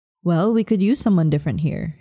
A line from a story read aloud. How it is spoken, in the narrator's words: she replied